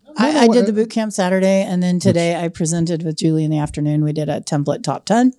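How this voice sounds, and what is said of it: Strained, fading voice. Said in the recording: “losing my voice already”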